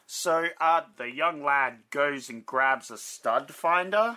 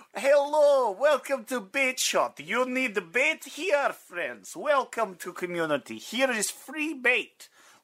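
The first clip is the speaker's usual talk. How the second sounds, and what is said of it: Put-on Russian accent. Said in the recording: “Now I'm turning Russian. ... That was very Russian.”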